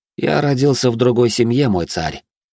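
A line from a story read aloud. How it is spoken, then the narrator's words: Sighing. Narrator (Russian): вздохнул он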